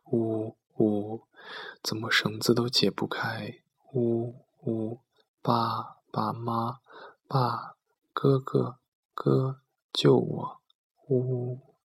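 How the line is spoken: Faint crying girl. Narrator (Chinese): 隐约听到那女孩的哭声

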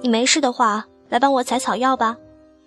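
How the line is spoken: Loud call. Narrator (Chinese): 他 大声叫我

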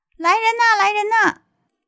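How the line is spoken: Loud shout. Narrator (Chinese): 这个侍从又大喊

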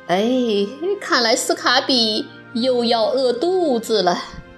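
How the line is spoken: Sighing old woman. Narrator (Chinese): 住在隔壁的和和巴奶奶叹了口气

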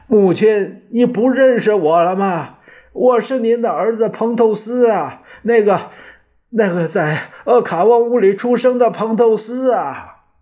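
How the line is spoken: Loud shouting. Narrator (Chinese): 彭透斯大大声的喊着

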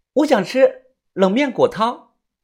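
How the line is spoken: Loud. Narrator (Chinese): 他大声的说道

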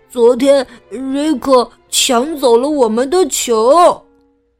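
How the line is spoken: Stammering. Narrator (Chinese): 茉莉和亨利结结巴巴的说

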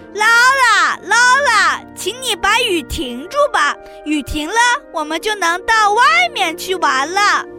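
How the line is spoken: Children shouting. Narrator (Chinese): 孩子们，他们喊着

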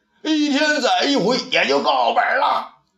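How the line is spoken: Laughing shout. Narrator (Chinese): 店外的人们又笑起来，有人喊道

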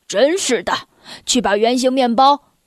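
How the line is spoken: Sighing voice. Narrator (Chinese): 他的爸爸叹着气说

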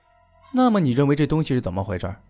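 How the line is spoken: Frowning, puzzled. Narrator (Chinese): 皱着眉头，然后对他说道

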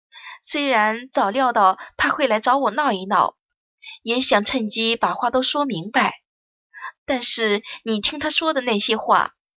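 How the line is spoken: Sighing. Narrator (Chinese): 锦朝叹了口气道

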